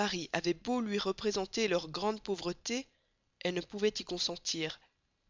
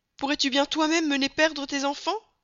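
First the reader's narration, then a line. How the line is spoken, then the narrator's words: Exclaiming woman. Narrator (French): s'écria la bûcheronne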